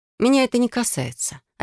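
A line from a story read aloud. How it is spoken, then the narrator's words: Dry. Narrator (Russian): сухо проговорила я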